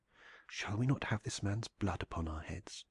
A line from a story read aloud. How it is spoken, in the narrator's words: he whispered